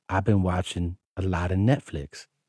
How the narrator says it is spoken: gently whispered

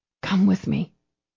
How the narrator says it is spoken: she whispered to him

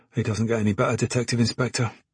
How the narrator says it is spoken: Spike muttered

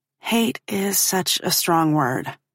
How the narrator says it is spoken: I mumble weakly

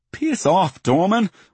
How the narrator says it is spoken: I spit

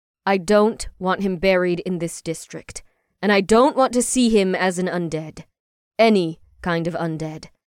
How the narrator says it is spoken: Ash firmly stated to Kate

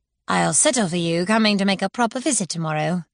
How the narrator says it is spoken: she said dryly

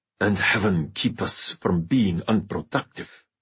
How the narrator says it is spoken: growled Bonarata

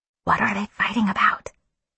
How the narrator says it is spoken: I whispered

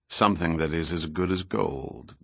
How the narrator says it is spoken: Goyette replied quietly

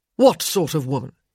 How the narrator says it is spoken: he snapped

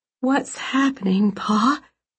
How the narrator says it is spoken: She asked, her voice shaking

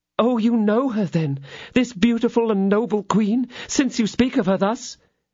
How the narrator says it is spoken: exclaimed enthusiastically

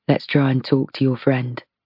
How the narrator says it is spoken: he murmurs

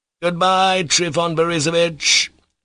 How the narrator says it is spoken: Mitya shouted again, not called out this time from good nature, but involuntarily from resentment

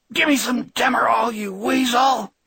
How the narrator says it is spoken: she cried in her barking, exhausted voice

